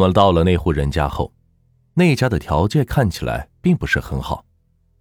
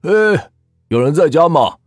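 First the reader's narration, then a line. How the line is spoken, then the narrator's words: Calling out. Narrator (Chinese): 老铁喊了几句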